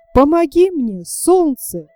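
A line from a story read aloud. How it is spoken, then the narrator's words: Young man's exclamation. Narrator (Russian): воскликнул юноша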